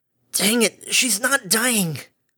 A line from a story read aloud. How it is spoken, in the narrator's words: Harmony hissed